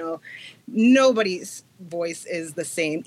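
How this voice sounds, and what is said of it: Usual voice. Nothing is said of it.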